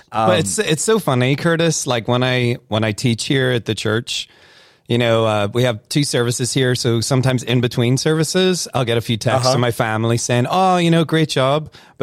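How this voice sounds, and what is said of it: Northern Irish accent, somewhat faded. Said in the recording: “you can tell the Irish ... you're losing your accent ... when you're around people from Northern Ireland again for like 5 minutes, then you just start to get your accent, you know, back again”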